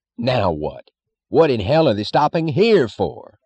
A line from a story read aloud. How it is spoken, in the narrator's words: he cried